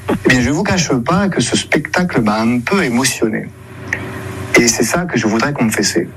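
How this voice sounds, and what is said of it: Weak, odd imitation of Marseille accent. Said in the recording (French): “On sent que ... essaie d'imiter l'accent marseillais, mais sans se lâcher totalement. Ça donne un accent, avouons-le, très bizarre, hein, une imitation pas trop réussie”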